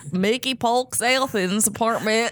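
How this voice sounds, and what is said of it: Put-on Alabama accent. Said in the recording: “Say his name in an Alabama accent.”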